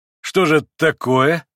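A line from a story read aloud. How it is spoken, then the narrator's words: Laughing. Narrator (Russian): засмеялся Иван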